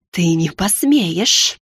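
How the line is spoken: Hiss. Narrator (Russian): прошипела она

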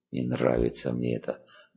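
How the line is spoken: Grumble. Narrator (Russian): буркнул долговец

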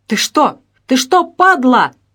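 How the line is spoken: Man yelling. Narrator (Russian): заорал мужик

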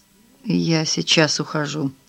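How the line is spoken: Mutter. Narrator (Russian): пробормотал он

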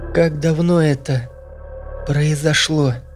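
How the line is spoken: Quiet, young woman. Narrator (Russian): тихо спросила девушка

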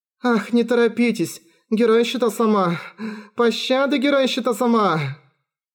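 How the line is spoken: Moaning women. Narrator (Russian): женщины застонали

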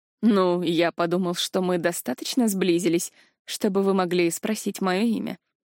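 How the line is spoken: Smirking demon. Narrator (Russian): хмыкнул демон

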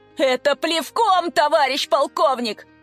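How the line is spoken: Yelling. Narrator (Russian): заорал Коля

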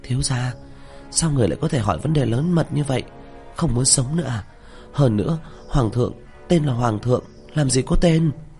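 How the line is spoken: Frightened, anxious low voice. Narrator (Vietnamese): Miêu Nhi sợ hãi, thập phần khẩn trương, hạ giọng nói

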